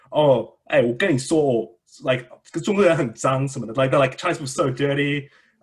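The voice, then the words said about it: Put-on Taiwanese accent. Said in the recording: “your Taiwanese accent.”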